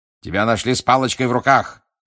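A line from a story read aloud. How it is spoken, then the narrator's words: Barking. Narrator (Russian): рявкнул мистер Дигори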